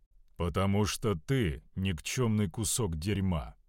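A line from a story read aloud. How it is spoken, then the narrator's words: Calm sorcerer reply. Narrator (Russian): спокойно ответил кудесник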